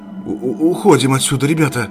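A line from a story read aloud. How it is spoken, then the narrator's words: Hoarse wheeze. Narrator (Russian): прохрипел Константин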